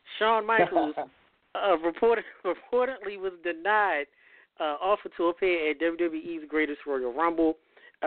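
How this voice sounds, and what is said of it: Vince McMahon voice impression. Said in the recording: “I'm going to try to do the Vince voice.”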